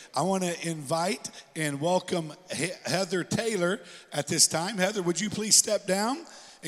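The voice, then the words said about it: Strained, congested voice. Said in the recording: “I apologize for my voice. I am dealing with some allergies today”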